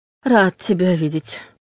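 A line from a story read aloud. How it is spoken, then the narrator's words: Exhausted breathless. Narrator (Russian): выдохнул Войтых, обессиленно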